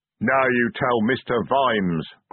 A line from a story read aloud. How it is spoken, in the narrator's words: growled Detritus